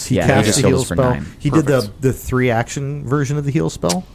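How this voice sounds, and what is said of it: Usual voice. Nothing is said of it.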